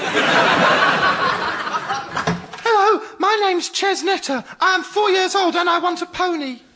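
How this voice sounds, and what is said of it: Adult putting on child's voice. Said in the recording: “learn to speak kiddish”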